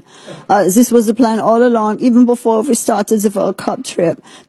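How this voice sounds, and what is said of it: Put-on German accent. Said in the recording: “I'm just assuming German accent.”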